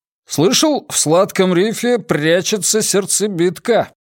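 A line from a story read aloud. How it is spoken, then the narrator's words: Loud young man. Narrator (Russian): громко произнес парень в клетчатом жилете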